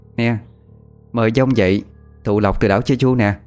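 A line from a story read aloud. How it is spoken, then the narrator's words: Forced loud laugh. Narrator (Vietnamese): miệng cố cười lớn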